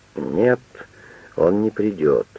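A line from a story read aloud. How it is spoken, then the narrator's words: Low voice, to himself. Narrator (Russian): Штудман сказал вполголоса, словно про себя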